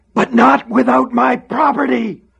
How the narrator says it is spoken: screamed

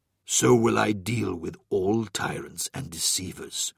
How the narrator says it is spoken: rumbled a deep voice

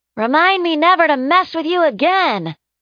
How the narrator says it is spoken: Olive shouted from next to her

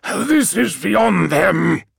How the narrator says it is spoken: snarled Malaghurst

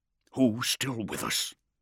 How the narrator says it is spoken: Beaumont murmured

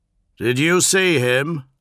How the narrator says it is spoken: asked Ignatius Newman, too loudly, each word carefully enunciated

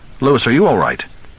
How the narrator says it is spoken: said sharply

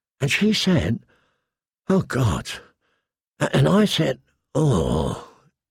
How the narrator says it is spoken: he groaned

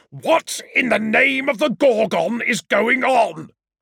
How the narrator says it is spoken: bellowed Ignatius Newman

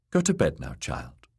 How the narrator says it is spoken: the kindly man said

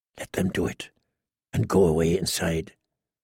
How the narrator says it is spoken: he heard himself whisper

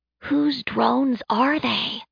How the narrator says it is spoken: She whispered, longing to take them down

